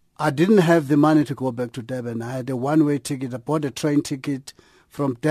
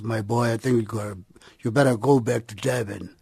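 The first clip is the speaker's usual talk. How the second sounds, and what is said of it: Deep-voiced imitation of a mentor. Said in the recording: “with his deep voice”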